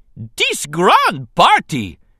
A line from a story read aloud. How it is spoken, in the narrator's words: an exuberant Jar Jar shouted above the noise of cheering and clapping